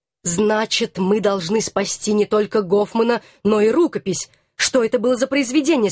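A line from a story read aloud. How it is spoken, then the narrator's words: Plain. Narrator (Russian): спросил мой муж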